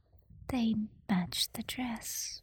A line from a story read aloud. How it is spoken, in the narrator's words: Elizabeth whispered